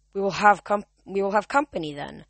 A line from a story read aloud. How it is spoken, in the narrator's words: Zoe said grimly